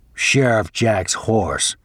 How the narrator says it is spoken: grumbles the big man

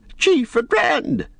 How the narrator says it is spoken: they shouted

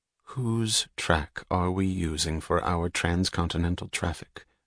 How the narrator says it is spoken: she asked, her voice flat and dry

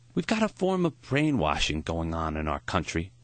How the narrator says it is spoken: Maury sighed

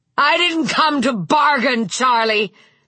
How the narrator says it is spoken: Vic yelled again

